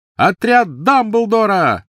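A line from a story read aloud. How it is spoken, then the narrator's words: Shout. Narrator (Russian): выкрикнул он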